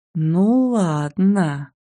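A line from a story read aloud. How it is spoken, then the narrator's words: Ominous drawl. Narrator (Russian): зловеще протянула я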